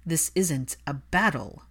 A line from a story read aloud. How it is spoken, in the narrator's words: Draco snapped